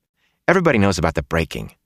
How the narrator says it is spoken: Matt said impatiently

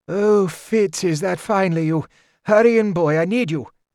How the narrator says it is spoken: a quavering voice called out

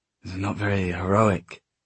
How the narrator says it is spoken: he said suddenly, though his voice was steady

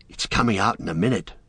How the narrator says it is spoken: whispered Pippin to Merry

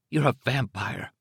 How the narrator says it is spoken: she said hoarsely

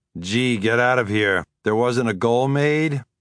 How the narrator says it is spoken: I said sarcastically to Arturo beside me

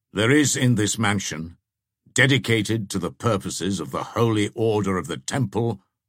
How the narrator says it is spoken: said the Grand Master in a severe tone

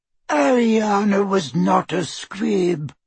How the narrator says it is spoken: wheezed Doge

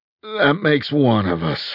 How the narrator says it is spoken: I groaned

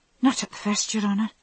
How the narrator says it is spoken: the girl answered, bobbing her head nervously

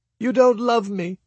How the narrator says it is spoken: wailed

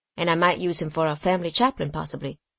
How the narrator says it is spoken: added the young man dryly

